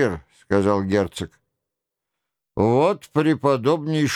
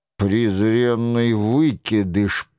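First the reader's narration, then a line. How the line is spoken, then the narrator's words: Grumbled mutter. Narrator (Russian): пробурчал герцог де Гиз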